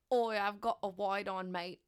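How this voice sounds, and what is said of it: Put-on Australian accent. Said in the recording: “Australian slang ... could you do it in the accent?”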